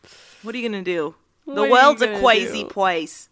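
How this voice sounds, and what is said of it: Poor put-on Philly accent. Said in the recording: “That's my Philly accent. ... It's terrible.”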